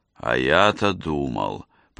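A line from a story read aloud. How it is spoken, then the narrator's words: Mutter. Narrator (Russian): пробормотал профессор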